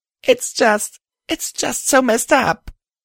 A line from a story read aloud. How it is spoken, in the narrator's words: I exclaimed through my tears